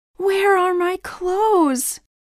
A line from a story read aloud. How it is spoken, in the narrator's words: shouted